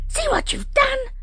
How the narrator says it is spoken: she screamed

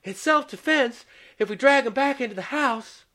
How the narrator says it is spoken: Ginny panted

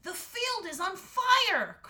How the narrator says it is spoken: cried Finn

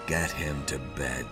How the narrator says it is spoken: he said wearily

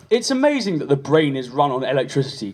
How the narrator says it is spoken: Quentin said

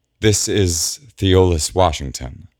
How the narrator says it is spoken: Penelope says, somewhat hesitantly

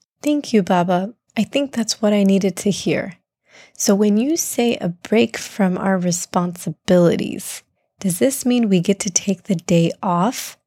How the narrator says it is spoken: asked Abdullah

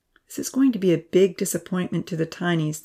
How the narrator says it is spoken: the professor sighed

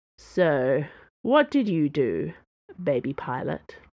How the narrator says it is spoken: he asked, not slurring nearly enough for a man on his third round of a golden elixir called Valorous Grain

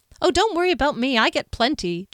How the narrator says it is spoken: Jack responded brightly

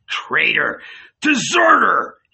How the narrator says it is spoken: bellowed again

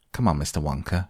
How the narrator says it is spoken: she said

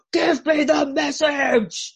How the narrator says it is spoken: the brigade commander roared out

